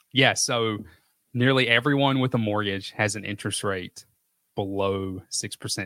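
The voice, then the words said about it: Southern American accent. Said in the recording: “The Southern accent cements it.”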